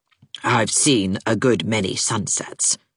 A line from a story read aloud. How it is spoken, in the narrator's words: said the latter coldly